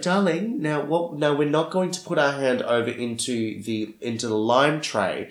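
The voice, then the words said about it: Sing-song teacher voice. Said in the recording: “putting on my teacher voice.”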